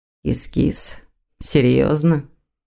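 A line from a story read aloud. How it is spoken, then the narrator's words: Grim drawl. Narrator (Russian): Мрачно протянул демон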